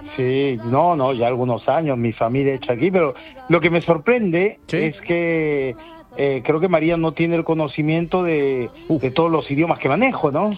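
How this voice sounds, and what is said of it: French-sounding accent in Spanish. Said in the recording (Spanish): “¡No, qué acento! ... lleva ya ahí mucho tiempo ... en París”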